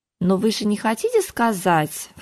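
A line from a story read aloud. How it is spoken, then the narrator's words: Insinuating, ingratiating. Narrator (Russian): вкрадчиво начала она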